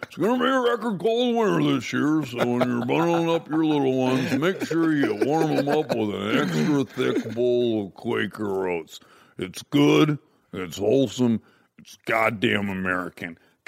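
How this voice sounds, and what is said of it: Imitates another person's voice. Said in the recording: “I was doing Wilford Brimley ... good impersonation”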